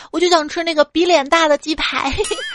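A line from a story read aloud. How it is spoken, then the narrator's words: Shouting. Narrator (Chinese): 刚一进门喊了一句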